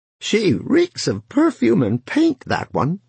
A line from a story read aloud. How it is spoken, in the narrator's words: she said, still laughing